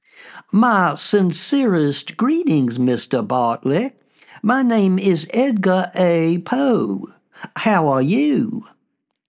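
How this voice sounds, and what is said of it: Soft voice, southern drawl. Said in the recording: “in a soft voice with a southern accent, some might say drawl.”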